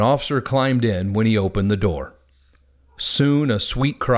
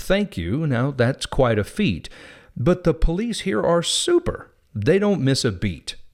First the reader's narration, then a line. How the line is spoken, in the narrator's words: Nick kindly said